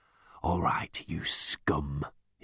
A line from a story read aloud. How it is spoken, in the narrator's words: he growled